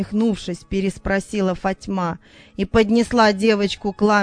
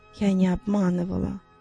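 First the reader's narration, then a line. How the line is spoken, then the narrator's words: Tearful speech. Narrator (Russian): Сквозь слезы проговорила Захра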